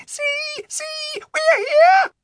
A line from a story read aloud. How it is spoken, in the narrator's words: several little animals, mice and moles and a squirrel or so, squealing with joy and saying